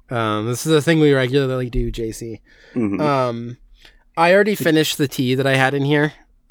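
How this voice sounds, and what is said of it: Slightly sick-sounding voice. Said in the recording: “I'm a little bit sick. People can maybe hear it in my voice.”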